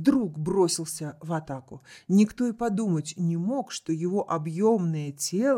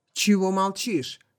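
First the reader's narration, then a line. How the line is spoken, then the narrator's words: Nervous, irritated bark. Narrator (Russian): рявкнул Хиллари, которого слегка нервировало абсолютное спокойствие Даррелла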